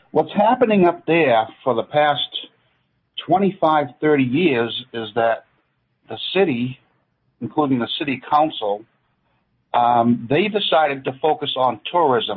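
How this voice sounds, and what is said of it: Maine accent. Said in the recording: “I grew up in Portland, Maine, and I spent 46 years up there. So now you're probably hearing my accent. ... Yeah, I am.”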